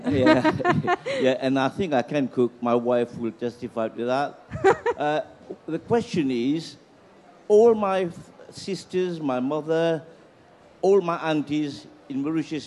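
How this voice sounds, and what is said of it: Mauritian accent. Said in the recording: “I'm a Mauritian like you ... I can tell by your accent.”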